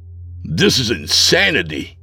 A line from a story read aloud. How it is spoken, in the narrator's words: I spat back